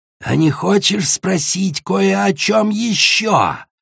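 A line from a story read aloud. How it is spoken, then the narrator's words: Sudden hiss, dragoness. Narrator (Russian): прошипела вдруг белая дракониха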